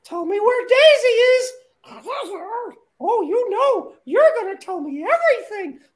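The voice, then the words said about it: Cartoon Mickey Mouse voice impression. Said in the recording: “I'd like to do a quick impression. This is Mickey Mouse waterboarding Donald Duck.”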